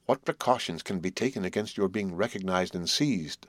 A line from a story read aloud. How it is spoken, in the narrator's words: I resumed, half groaning